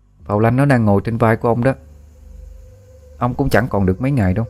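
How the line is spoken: Cold remark. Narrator (Vietnamese): A Phong lạnh lùng bảo

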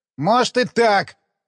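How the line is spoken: Snapping. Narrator (Russian): огрызнулся Шлямин

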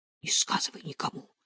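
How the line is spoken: Mutter. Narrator (Russian): бормотала Галина

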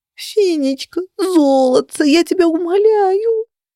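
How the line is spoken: Whimpering plea. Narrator (Russian): проскулила

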